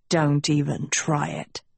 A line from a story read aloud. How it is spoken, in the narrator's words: Tedros snarled